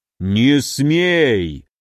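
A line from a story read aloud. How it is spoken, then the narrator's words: Giant's room-shaking bark. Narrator (Russian): рявкнул великан так, что комната задрожала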